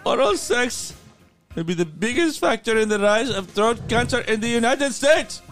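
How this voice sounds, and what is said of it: Put-on foreign accent. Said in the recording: “Now that I know who he is, I'm going to do the accent.”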